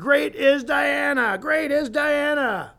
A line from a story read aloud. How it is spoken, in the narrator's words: were yelling